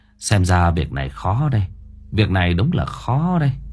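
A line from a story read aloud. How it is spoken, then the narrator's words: Sighing. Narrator (Vietnamese): Lão Ba Quân thở dài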